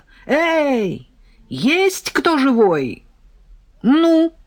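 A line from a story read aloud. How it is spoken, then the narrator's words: Yelling. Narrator (Russian): заорала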